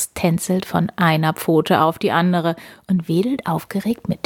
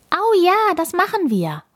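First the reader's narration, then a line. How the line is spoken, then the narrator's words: Beaming, calling out. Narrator (German): ruft Emi und strahlt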